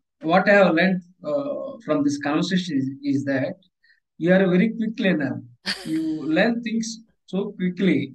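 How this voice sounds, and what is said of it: Indian-accented English. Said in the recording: “English is not my native language ... my accent is different. I am from Indian origin”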